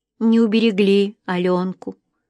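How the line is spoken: Sad, tearful young woman. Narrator (Russian): грустно сказала девушка, и на ее глазах показались слезы

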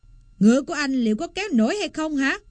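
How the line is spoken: Man's angry bellow. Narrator (Vietnamese): Người đàn ông quát tháo

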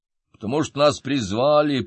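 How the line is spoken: Deep bass voice. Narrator (Russian): пробасил кто-то

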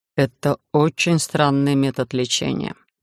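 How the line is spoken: Quiet. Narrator (Russian): тихо проговорил Эдриш

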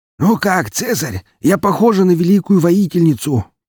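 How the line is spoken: Hoarse female rasp. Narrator (Russian): прохрипела она

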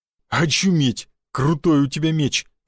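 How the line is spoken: Breathless exclamation. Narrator (Russian): выдохнул Буян

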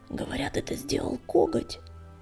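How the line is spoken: Hoarse rasp. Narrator (Russian): прохрипела синяя звезда

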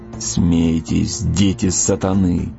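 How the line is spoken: Muttering. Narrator (Russian): пробормотал разведчик

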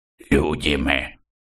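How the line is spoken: Hoarse reply. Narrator (Russian): хрипло ответил тот

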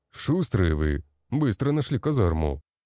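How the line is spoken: Snorted. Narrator (Russian): хмыкнул тот

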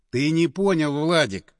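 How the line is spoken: Sighing. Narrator (Russian): вздохнул Андреев

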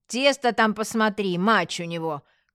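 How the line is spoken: Woman shouting. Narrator (Russian): крикнула вслед уходящему мужу женщина

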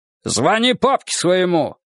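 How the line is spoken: Barked by ex-officer. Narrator (Russian): рявкнул на нее бывший прапорщик

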